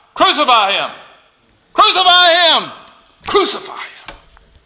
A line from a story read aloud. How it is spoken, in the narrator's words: They shout